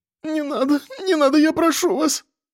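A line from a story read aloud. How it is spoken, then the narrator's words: Woman whimpering. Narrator (Russian): скулила журналистка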